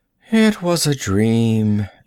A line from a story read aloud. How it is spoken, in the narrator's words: she yawned